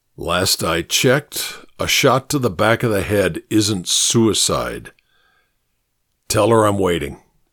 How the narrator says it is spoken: he said in a low, deliberate voice

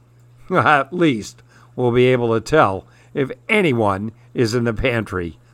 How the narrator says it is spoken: laughed Dad

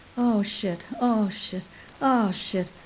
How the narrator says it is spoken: him moaning

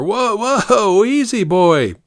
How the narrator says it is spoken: yelled

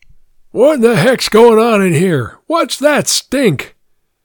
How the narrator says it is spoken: ears were outraged by bellow

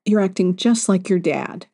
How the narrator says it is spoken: she said

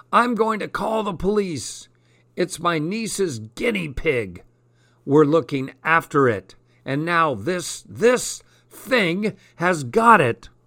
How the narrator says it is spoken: Next Door yelled at me

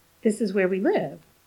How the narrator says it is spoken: repeated a little impatiently

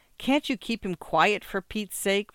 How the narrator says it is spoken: Morton asked irritably

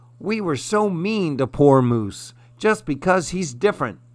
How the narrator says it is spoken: cried Squirrel

